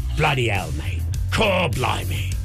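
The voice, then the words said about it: Put-on cockney accent. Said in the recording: “It's kind of cockney.”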